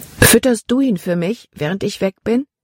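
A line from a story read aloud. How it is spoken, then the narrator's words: Plain question. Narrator (German): fragte Libby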